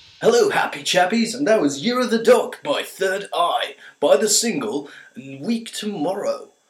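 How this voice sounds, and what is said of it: Cheesy radio DJ voice. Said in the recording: “That was a cheesy radio voice.”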